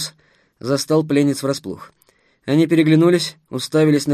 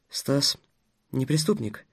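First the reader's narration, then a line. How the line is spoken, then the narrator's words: Quiet objection. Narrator (Russian): тихо возразил Дарья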